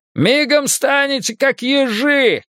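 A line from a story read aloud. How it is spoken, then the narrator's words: Shouting. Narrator (Russian): крикнул тот в плаще из зелени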